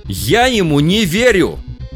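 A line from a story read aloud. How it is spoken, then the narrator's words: Shout. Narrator (Russian): закричал первый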